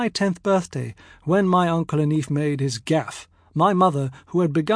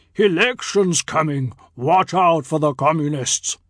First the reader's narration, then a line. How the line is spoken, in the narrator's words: booming cheerily